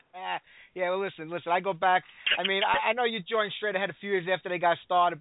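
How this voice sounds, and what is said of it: New York accent. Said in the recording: “you sound like a New Yorker ... you can't get rid of that accent”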